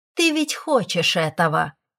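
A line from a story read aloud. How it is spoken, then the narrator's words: Snide, mocking. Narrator (Russian): ехидно отозвалась девушка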